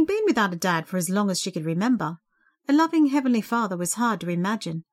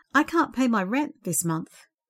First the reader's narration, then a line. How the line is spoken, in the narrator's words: she told him mournfully